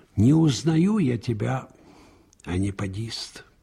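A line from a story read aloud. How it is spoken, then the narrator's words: Quiet, bitter. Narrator (Russian): тихо и горько сказал Анискин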